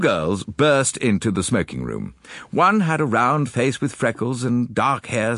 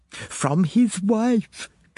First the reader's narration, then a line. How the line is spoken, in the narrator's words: gasped Pamela Cregan